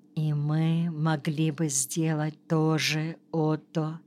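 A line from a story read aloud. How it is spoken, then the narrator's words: Very quiet. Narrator (Russian): совсем тихо добавила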